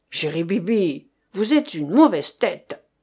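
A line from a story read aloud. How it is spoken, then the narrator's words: Sneering creature in shadow. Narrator (French): La chose accroupie au fond de l'ombre ricana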